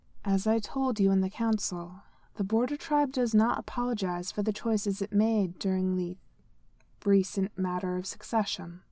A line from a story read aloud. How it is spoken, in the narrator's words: Khaosi said evenly